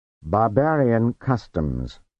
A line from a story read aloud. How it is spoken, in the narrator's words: said stiffly